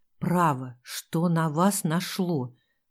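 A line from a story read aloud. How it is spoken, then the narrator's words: Hissing. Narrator (Russian): прошипел он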